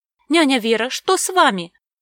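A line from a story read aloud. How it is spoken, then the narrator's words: Frightened exclamation. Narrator (Russian): воскликнула испуганно Мира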